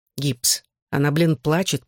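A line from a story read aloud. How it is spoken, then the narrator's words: Growled. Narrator (Russian): прорычал Джонни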